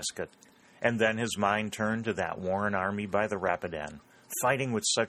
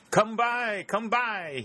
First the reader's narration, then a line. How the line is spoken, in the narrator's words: cried